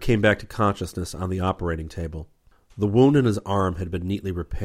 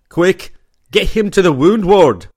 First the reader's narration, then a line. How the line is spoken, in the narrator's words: he roared